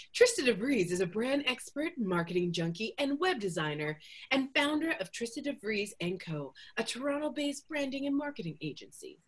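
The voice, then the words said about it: Fake announcer-style bio voice. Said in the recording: “I'm going to do the fake bio voice again”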